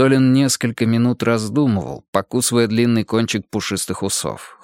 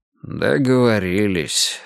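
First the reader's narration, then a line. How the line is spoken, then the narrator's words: Sigh. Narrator (Russian): снова вздохнул Пересолин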